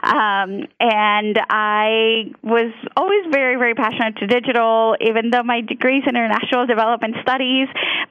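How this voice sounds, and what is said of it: Mild Colombian Spanish accent. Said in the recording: “I am very proud to be Colombian... you might notice an accent come out here and there because English is my second language”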